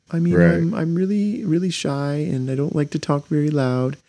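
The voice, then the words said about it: Small, soft, shy voice. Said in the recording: “Not accent, but her little soft voice.”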